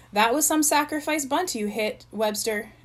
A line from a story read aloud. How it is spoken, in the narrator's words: exclaimed Chip with forced enthusiasm